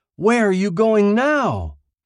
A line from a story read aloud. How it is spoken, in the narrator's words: shouted after him